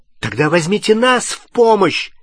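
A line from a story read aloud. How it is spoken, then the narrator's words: Angry shout. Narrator (Russian): сердито крикнул Невилл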